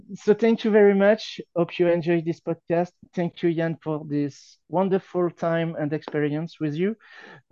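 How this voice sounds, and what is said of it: French accent. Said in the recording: “my French accent ... you might find my French accent ... disturbing, sexy, ugly ... alluring”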